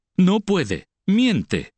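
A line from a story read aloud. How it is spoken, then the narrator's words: Exclaiming. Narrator (Spanish): exclamó Mahó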